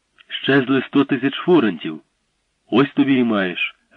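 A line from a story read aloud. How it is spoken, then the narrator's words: Exclaimed. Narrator (Ukrainian): вигукнув він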